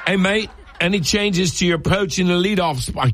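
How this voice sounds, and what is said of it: Poorly attempted put-on accent. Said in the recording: “I can't do that accent.”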